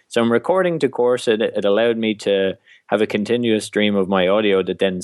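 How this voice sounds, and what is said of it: Irish accent. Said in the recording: “anything I was saying with an Irish accent”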